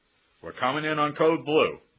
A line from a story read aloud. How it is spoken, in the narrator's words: one barked over the phone, that is, over the radio